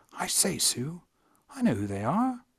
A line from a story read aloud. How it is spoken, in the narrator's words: Lucy remembered something and whispered to Susan